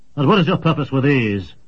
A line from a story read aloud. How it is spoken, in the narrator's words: he barked